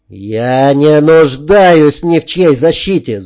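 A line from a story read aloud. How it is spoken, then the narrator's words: Shouting. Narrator (Russian): заорал я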